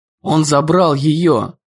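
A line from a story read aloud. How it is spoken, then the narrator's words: Hoarse rasp. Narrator (Russian): прохрипел Дэн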